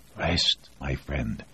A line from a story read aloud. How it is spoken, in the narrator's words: Voznesensky whispered